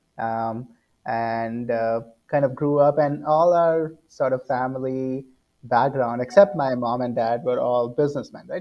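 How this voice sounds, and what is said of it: Indian English accent. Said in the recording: “as you can see from my accent, born and brought up in India”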